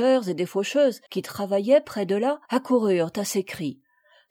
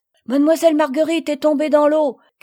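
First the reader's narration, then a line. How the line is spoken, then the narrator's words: Women shouting. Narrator (French): criaient les bonnes femmes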